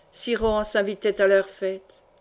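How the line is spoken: Muffled low voice. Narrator (French): demanda-t-il d'une voix sourde

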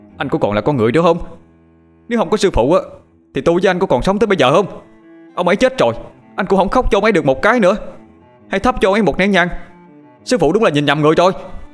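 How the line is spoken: Angry shouting. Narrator (Vietnamese): không nhịn được, nó bèn hét lên

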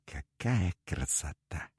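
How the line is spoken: Whispered in admiration. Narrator (Russian): шептал

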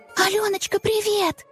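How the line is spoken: Whisper, woman. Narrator (Russian): шепотом сказала

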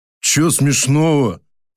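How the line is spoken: Deep bass, close by. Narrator (Russian): пробасил мужик над самым моим ухом

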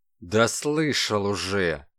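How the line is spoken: Angry. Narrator (Russian): злобно сказал Калашников

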